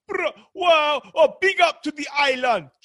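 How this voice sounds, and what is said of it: Put-on Jamaican accent. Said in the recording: “He's doing the Jamaican accent.”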